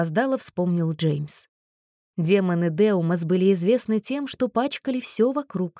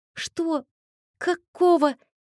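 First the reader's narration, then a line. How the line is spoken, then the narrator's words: Stammering speechless mumble. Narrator (Russian): запинаясь, пробормотал Кристофер, лишившись дара речи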